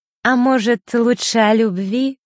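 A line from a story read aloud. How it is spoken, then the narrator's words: Sweet voice. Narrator (Russian): сладким голосом произнесла Маришка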